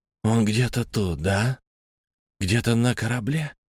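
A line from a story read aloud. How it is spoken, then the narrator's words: Whisper. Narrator (Russian): прошептал я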